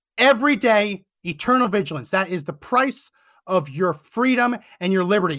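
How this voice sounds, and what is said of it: Yelling, raised lecturing voice. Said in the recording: “I'm lecturing you, I'm yelling at you”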